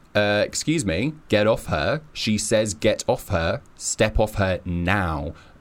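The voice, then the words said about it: Stern, deep commanding voice. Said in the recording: “put on a stern voice... put on my deep voice”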